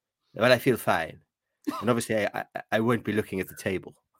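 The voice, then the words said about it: Imitates another person's voice. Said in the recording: “can you do your Alf Ramsey impression again, please?”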